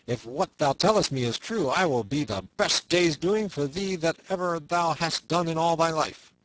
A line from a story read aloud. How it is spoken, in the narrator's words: cried